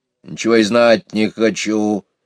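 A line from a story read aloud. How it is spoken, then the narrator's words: Grumbling hedgehog. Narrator (Russian): заворчал ежик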